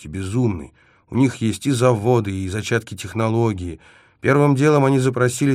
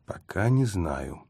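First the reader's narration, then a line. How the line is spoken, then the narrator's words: Gloomy reply. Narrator (Russian): мрачно ответил я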